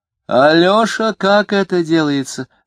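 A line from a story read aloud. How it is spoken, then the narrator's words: Childish pleading shout. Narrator (Russian): ребячливо и умоляюще кричала Любаша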